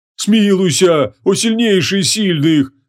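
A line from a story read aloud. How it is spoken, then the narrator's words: Nasal, terrified pleading. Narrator (Russian): Гнусаво взмолился Эфрит, с ужасом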